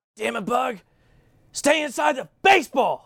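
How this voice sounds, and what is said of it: Impression of coach Frank Menachino. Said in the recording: “your best impression of Frank Menachino, tone, language”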